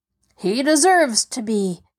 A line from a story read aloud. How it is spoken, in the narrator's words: growled Peter